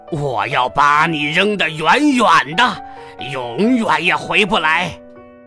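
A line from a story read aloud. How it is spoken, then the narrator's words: Monster roaring. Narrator (Chinese): 大怪兽咆哮着说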